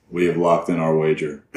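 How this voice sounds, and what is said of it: Deep, deadpan bass voice. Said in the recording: “This is my deadpan bass friend.”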